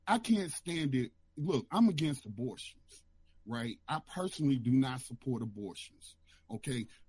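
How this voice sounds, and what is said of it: Lowered, quieter voice. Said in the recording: “Let me lower my voice.”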